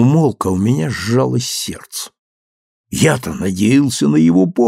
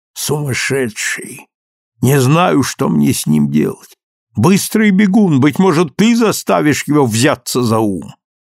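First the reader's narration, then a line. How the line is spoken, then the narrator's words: Angry grumble. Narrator (Russian): нахмурилась и сердито проворчала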